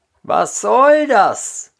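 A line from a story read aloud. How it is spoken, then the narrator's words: Called out. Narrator (German): rief der andere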